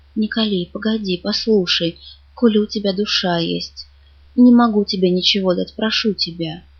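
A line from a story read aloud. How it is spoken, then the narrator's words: Whispered. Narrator (Russian): Я говорю ему шепотом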